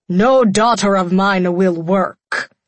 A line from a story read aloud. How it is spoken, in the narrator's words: he spat